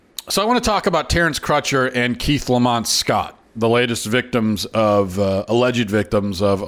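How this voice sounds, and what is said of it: Usual voice. Nothing is said of it.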